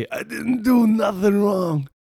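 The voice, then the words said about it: Imitates another person's voice. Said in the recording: “my little Cuomo voice”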